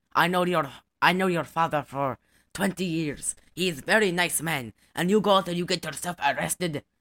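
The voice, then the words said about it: Exaggerated accent imitating a film character. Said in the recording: “that my accent is an exaggeration. That's how he sounded in the movie.”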